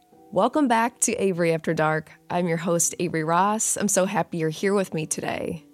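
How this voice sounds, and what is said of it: Sick voice, sore throat. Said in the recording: “I'm sure you can hear it in my voice. I got sick last week... I had a killer sore throat... I got COVID.”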